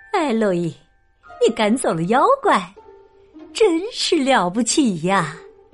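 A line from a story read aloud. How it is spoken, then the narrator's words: Tired but smiling. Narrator (Chinese): 她神色疲倦，可她微笑着对我说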